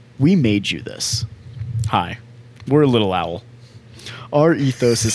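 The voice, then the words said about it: Exaggerated radio announcer voice. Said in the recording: “was it was it too much of a radio voice?”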